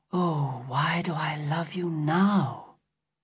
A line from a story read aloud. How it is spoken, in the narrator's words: said softly